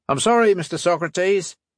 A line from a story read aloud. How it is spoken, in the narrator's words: she barked